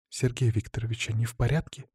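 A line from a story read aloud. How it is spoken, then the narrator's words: Quiet, careful question. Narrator (Russian): Тихо, будто боясь спугнуть их, поинтересовалась Марина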